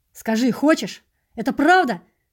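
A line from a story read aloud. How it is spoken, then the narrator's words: Restrained shout. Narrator (Russian): Я тоже крикнул ей, сдерживаясь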